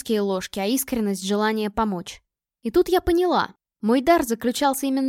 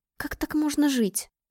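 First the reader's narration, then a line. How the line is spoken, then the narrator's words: Muttered. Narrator (Russian): пробормотала я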